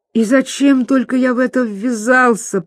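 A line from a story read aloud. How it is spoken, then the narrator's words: Groaning. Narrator (Russian): простонал Пипин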